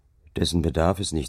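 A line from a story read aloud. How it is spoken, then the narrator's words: Plain. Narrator (German): sagte ich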